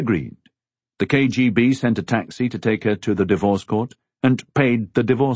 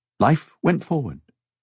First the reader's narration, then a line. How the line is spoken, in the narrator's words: she said